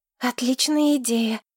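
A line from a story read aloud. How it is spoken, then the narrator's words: Exclamation then sigh. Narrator (Russian): воскликнула Алета и вздохнула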